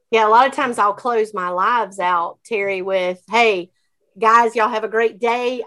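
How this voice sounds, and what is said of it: North Carolina country accent. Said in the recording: “you have the greatest accent I've ever heard in my life ... I am a country girl ... North Carolina”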